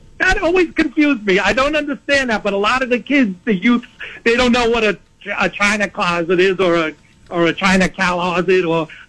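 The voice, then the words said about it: Noticeable regional accent. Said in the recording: “with your accent”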